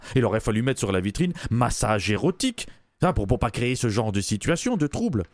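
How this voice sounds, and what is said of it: European French, non-Québécois accent. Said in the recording (French): “vous entendez bien mon accent, je suis pas québécois”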